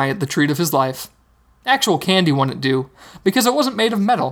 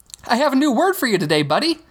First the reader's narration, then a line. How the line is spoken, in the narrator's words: Hogarth said, brightly